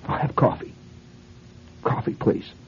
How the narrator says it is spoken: She says, in a very tense voice

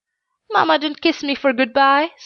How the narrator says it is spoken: sobbed the little girl

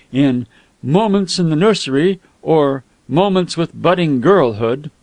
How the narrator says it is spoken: said Smith, regarding it gloomily

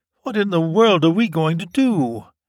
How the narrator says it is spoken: his wife said mournfully

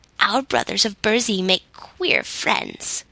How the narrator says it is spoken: grumbled an ancient Nook, whose flowing beard was pure white

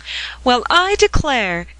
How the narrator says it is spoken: exclaimed Grandma Bascom

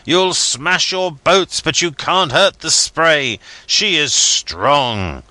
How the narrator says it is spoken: I cried

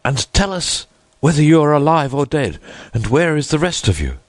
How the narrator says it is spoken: he cried

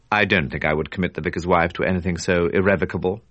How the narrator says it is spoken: Robert said dryly

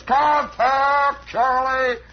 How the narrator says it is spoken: this guy hollers

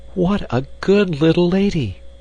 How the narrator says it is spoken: cried Gretel, clapping her hands with delight

